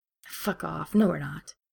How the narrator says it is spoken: Ed scoffs

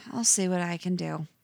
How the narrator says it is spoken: She sighs, then says

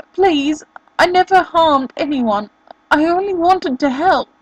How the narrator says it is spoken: he cried, his voice hoarse

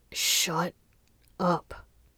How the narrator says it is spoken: Muqing muttered between kisses

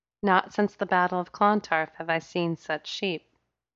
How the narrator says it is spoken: she said in a lilting accent

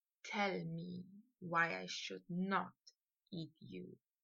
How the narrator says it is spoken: whisper in his ear

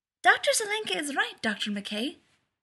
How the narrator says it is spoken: said Miko, bouncing excitedly on her toes

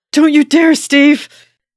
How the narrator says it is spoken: yells, voice hoarse with anguish

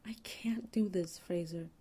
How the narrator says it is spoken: Ray gasps out

